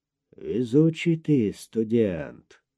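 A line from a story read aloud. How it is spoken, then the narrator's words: Hoarse exhale, bound man. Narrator (Russian): хрипло выдохнул, наконец, прикрученный к креслу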